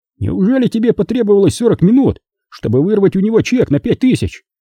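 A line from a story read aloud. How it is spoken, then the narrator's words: Exclaiming. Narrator (Russian): воскликнул Билл Карлин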